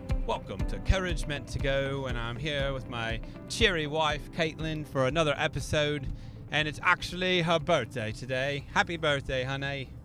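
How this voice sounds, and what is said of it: Mixed Indiana-British put-on accent. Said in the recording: “Are we talking with a British accent? ... it's kind of a mixture between Indiana and British”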